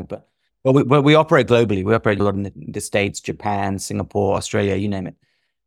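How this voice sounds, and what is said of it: British English accent. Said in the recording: “we're based in the UK, I should have explained, maybe my accent might give that away”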